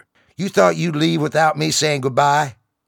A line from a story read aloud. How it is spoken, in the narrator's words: He yelled over the noise of the engines